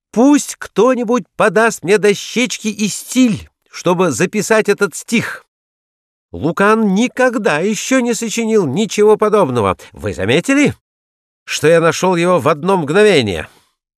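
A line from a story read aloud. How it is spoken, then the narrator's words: Excited shouting. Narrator (Russian): забыв обо всем, с прояснившимся лицом закричал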